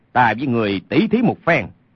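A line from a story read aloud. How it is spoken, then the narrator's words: Shout. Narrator (Vietnamese): Lê Sinh quát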